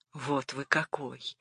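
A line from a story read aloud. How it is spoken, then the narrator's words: Whispered. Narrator (Russian): Шепот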